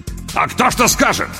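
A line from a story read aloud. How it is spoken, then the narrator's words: Sudden near-bark. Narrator (Russian): Вдруг почти рявкнул Лопату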